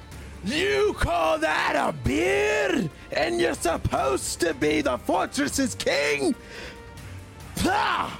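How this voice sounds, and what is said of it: Shouted line in changed character accent. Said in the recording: “he's gonna scream out ... I tried to change the accent for that”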